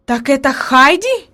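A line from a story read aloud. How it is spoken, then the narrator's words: Exclamation. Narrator (Russian): воскликнула наконец она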